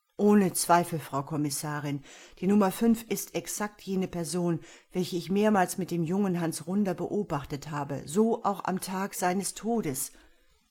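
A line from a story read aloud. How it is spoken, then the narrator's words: Calm measured voice. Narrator (German): bestätigte mit seiner besonnenen Stimme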